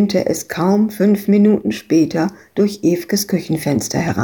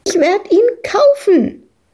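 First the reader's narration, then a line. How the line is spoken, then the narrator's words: Shrieking over others. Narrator (German): kreischte Madita dagegen an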